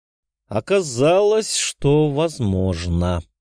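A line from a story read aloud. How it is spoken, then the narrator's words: Drawled. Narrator (Russian): протянул Голицын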